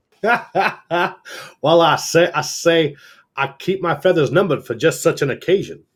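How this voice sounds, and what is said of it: Exaggerated Southern Foghorn Leghorn voice. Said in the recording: “Our Southern accents all sound like Foghorn Leghorn.”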